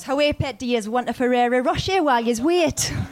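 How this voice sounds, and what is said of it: Put-on Geordie Newcastle accent. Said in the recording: “Newcastle is the one accent I can't do ... I can do it a bit, yeah ... one of my mates is a Geordie”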